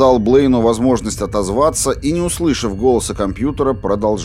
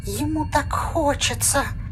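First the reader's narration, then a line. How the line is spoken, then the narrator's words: Terrified whisper, small child. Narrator (Russian): послышался полный ужаса шепот Блейна маленького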